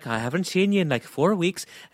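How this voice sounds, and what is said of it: Put-on Irish accent. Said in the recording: “that accent... She's just but Irish now”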